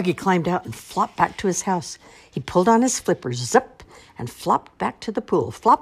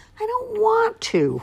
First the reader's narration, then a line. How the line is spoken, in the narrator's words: whined Froggy